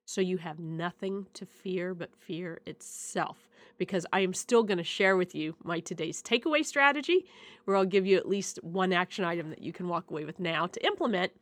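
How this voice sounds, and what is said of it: Voice sounds like having a cold. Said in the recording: “I'm sure you can hear it in my voice, I have a cold”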